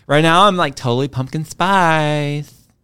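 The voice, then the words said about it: Valley Girl accent. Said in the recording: “my Valley Girl accent”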